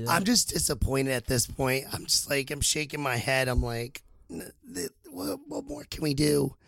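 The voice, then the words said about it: Rough, strained voice. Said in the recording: “My voice is a little shit, but you got to bear with me ... There's a lot of screaming going on, no?”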